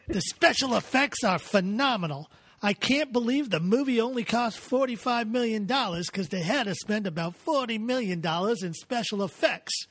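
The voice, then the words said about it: Put-on accent. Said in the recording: “I love this accent.”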